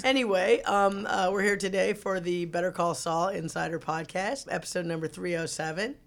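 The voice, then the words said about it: Raspy, rough voice. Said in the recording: “my voice sounds really, really crazy today... I had a little bit of an allergy problem with pollen... It's a nice radio voice... It's kind of raspy”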